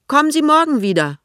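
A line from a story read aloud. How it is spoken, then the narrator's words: Woman calling back. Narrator (German): ruft die Frau zurück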